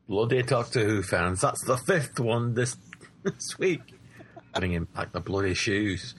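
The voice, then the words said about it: Put-on Scottish accent. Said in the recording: “I had to do it in a Scottish accent”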